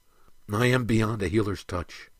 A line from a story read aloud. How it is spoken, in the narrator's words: said weakly